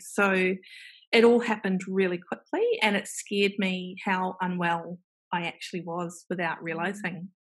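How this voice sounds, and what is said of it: New Zealand accent. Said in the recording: “there is a Kiwi accent”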